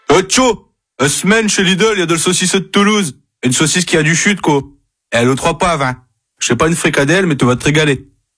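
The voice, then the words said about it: Northern French accent. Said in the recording (French): “avec un accent du Nord”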